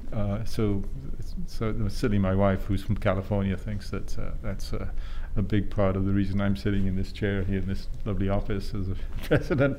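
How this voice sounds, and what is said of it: Welsh accent. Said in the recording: “his lovely Welsh accent”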